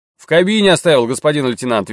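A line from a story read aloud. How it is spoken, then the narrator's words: Cheerful reply. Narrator (Russian): весело ответил Арчи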